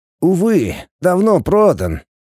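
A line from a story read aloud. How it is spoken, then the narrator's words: Sighing. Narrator (Russian): вздохнул Игнат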